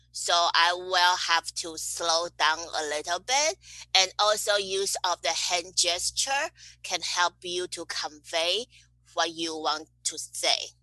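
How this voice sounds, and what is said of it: Non-American accent. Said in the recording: “i'm not really like american so when i'm like speaking to people some people may not be understanding my uh, accent”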